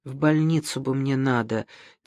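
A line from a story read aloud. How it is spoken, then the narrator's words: Weak, quiet voice. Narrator (Russian): тихо, экономя силы, сказал Авизов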